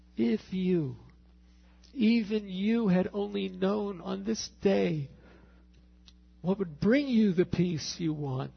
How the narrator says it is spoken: he cries out

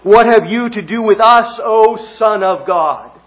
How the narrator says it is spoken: they cried out

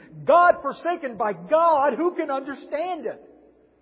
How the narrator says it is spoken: They heard him screaming

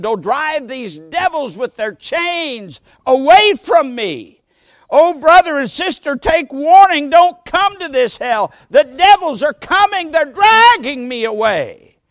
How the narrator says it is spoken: He took seriously ill and exclaimed

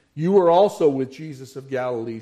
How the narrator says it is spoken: she said

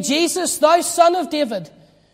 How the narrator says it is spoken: shout it out

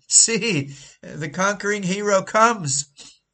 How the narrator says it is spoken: they shouted

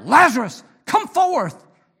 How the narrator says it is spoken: he cried out

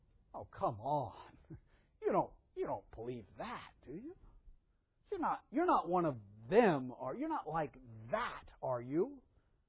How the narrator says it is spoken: There's a sneering condescension

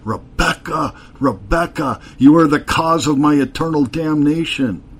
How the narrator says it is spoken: his eyes flashing with terror, he cried out

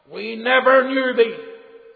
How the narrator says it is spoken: They cried out

